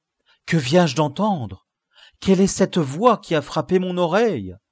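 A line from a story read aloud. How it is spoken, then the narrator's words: Exclaiming. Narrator (French): s'écria-t-il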